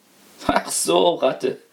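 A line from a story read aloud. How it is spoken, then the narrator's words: Laughing master of house. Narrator (German): lachte der Hausherr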